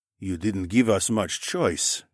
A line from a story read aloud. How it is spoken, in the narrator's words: Mel muttered